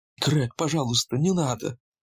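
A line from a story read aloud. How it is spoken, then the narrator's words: Timid. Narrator (Russian): робко начала она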